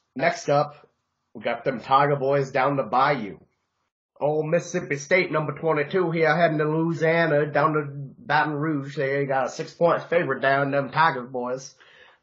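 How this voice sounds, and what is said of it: Poor put-on Bayou Southern accent. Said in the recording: “That was a terrible Bayou accent”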